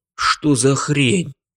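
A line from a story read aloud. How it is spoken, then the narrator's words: Muttered. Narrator (Russian): пробормотал я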